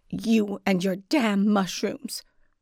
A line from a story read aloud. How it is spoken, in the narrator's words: she snarled